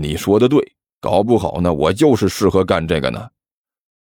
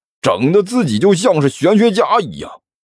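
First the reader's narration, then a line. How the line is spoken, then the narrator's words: Cheerful, grinning. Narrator (Chinese): 张野飞笑嘻嘻的说道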